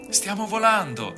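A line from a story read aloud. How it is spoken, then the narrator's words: Excited exclaiming. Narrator (Italian): abbiamo esclamato eccitati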